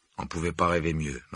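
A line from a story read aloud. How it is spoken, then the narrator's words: Muttering. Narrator (French): marmonna Harry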